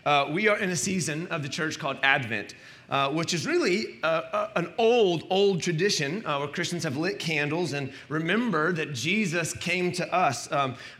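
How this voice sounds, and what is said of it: Strained, fading voice. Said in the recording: “sorry, I'm losing my voice,”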